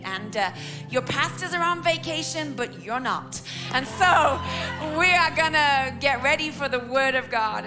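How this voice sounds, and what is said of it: English accent. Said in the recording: “strange accent ... I'm your English auntie you didn't know you had”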